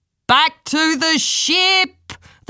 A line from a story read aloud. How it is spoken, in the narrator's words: the leader of the Pellish pirates shouted